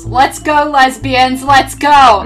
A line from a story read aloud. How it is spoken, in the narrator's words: my phone yells